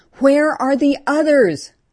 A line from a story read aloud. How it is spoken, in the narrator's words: Her pain gave her strength to make her voice heard by the living